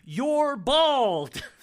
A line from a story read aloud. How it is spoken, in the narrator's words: Elaine explodes, getting in his face with a flourish and yelling